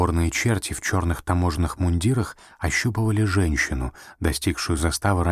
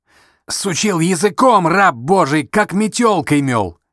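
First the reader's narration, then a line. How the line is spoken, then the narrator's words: Joyful shout. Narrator (Russian): радостно закричал один из бесов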